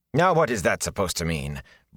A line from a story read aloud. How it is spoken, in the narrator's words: Bran said sharply